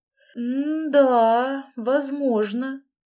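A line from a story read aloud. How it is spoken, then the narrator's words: Drawling. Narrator (Russian): протянула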